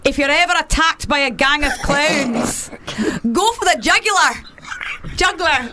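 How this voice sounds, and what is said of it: Put-on Scottish accent. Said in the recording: “So I do Scottish. ... you could do a Scottish accent really good.”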